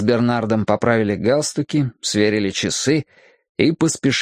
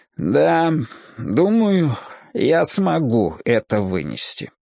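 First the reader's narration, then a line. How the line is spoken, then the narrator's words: Heavy-sighing conclusion. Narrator (Russian): тяжко вздохнув, заключает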